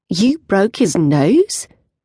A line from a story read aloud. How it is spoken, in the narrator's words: My voice rises with concern